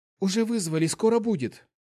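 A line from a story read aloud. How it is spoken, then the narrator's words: Frightened babble. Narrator (Russian): испуганно пролепетала она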